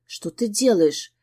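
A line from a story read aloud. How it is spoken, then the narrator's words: Whispered question. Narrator (Russian): шепотом поинтересовалась я у Диониди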